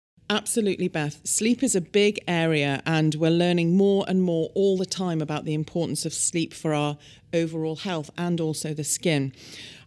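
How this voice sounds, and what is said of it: British accent. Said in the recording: “In the UK, where I'm from, as you can probably tell by my accent”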